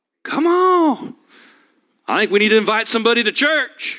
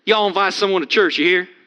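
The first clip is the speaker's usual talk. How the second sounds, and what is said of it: Put-on American Southern accent. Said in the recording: “Need to get my southern accent worked out.”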